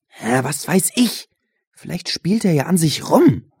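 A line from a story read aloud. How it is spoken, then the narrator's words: Hissed. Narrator (German): zischte Benjamin Josh an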